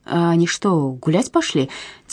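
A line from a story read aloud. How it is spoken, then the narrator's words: Quiet question. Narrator (Russian): тихо спросил Люндхаген Андерсена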